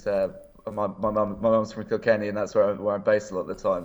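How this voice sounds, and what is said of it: English accent. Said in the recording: “despite my accent ... I might sound very English”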